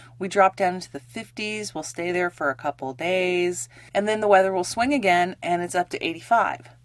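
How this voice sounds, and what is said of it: Raspy, congested voice. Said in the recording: “apologize for my voice quality. I'm a little raspier than normal ... it's really congested me and taken a toll on my voice”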